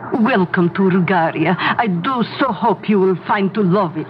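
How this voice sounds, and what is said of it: Put-on foreign tour guide accent. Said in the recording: “You like my tour guide accent? ... But you don't have an accent when you speak to us.”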